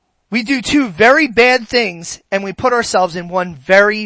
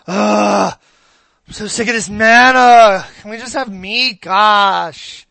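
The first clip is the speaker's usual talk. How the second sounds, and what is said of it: Whiny teenager voice. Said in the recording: “my best teenager impression.”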